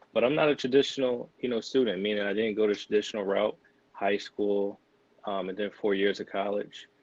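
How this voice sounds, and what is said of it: Philadelphia accent. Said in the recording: “I'm not sure if you can tell with my accent, but born and raised in Philly, Philadelphia”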